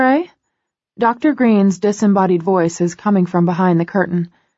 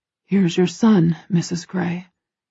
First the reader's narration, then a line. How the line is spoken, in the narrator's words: he whispers, his voice strained and hoarse